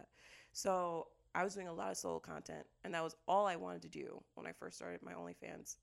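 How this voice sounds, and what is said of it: Unusually deep, low voice. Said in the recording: “my voice has dropped 7 octaves”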